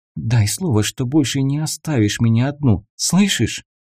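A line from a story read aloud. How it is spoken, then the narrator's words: Quiet, tearful. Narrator (Russian): тихо проговорила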